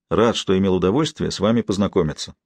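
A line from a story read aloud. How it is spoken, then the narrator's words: Plain. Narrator (Russian): сказал он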